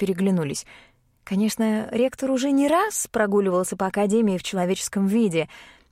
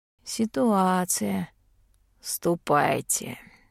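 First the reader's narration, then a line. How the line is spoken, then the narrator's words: Tired. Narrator (Russian): устало сказал Голд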